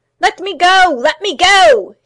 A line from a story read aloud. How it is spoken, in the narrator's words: shrieked